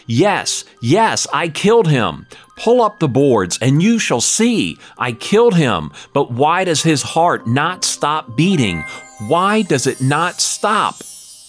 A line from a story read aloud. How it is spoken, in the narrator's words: I cried